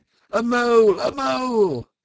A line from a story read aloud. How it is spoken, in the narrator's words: Mole, black and grim, shouting his awful war cry